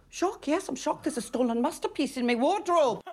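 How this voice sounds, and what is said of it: Convincing Newcastle accent. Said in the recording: “the accent is on point, as usual ... Very difficult accent ... It's Newcastle, which is quite a tough accent”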